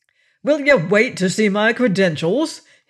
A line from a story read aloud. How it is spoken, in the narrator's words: snapped